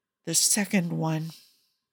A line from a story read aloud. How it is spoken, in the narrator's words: he whispers